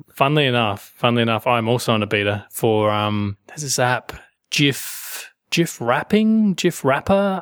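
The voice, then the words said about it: South Australian accent. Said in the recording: “your South Australian accent”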